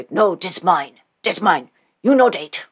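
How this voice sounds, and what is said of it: Crude caveman character voice. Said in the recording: “a weird caveman impersonation ... I'm not good at impersonations”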